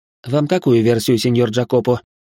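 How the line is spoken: Snorting, wry. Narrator (Russian): хмыкнул я

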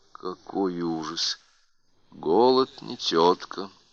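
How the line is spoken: Quiet remark. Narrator (Russian): тихо заметил граф Паппас

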